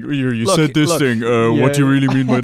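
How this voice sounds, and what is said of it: Imitates another person's voice. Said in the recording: “it's an impression of my voice”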